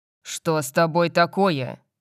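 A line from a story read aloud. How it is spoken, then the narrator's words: Growled. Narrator (Russian): Я зарычал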